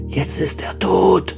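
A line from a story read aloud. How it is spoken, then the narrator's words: Whispered, several voices. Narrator (German): flüsterten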